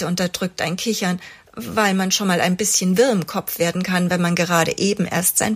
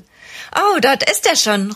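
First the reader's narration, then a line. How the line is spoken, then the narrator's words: Relieved call. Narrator (German): ruft Ella erleichtert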